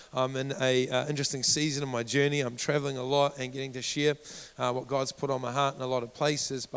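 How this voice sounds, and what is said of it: Husky, worn voice with a cold. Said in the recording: “I got up sounding husky ... I do apologize for my voice ... it's starting to take a toll on my voice. Plus, after a few weeks of intense travel, a cold seems to be besetting me.”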